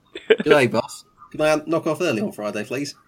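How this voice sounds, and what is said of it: Put-on Australian accent. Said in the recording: “putting on a voice ... thought we were doing Australian ... go in with an Australian accent”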